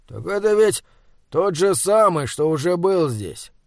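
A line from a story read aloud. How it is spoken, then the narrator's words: Tired, after a burp. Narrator (Russian): рыгнув устало, сказал Вапслин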